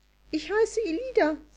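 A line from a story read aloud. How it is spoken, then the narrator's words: Cheerful. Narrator (German): sagte fröhlich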